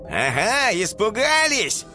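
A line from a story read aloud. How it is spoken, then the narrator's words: Shouting after someone. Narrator (Russian): прокричал им вслед Спайк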